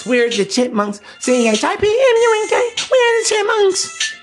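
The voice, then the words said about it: High-pitched Chipmunks falsetto voice. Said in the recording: “Elvin and the fucking Chipmunks ... talking like that ... the intonation of falsetto”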